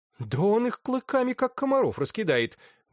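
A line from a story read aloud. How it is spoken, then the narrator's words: Exclaiming. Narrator (Russian): воскликнул Роз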